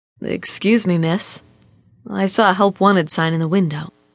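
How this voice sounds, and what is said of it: Deep male character voice. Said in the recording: “a deep voice said”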